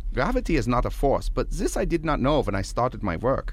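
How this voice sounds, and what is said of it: German accent. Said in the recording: “why the German accent? I mean, it sounds sort of familiar”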